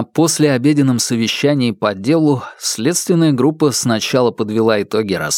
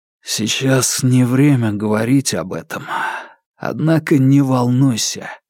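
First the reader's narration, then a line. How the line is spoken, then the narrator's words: Hoarse. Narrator (Russian): хриплым голосом сказал он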